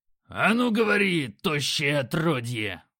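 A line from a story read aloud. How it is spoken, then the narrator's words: Growling. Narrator (Russian): Грок рыкнул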